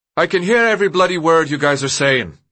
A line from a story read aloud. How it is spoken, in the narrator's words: Newt called in a loud voice